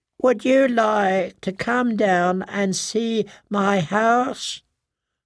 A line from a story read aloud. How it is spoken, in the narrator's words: the pear-shaped man asked in that high, whiny voice